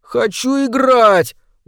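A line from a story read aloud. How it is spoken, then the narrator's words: Whimpering. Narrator (Russian): уже захныкал Джим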